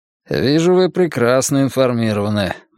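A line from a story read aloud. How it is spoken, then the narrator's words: Gloomy remark. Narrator (Russian): мрачно заметил он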